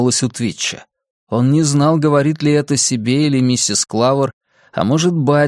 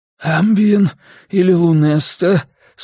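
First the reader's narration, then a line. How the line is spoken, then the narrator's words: Hoarse question. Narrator (Russian): спросил Твич осипшим голосом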